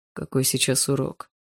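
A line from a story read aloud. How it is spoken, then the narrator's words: Quiet question. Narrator (Russian): тихо спросил Барс у Полины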